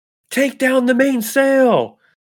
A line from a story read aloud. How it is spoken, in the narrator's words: Jendrick starts yelling